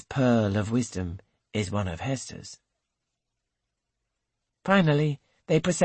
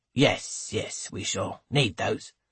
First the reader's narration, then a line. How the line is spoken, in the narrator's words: Hancock grunts